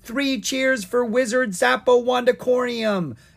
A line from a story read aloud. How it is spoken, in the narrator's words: Owen cried out